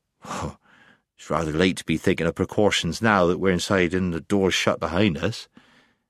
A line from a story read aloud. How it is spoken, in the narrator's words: he muttered